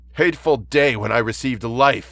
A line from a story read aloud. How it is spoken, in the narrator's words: I exclaimed in agony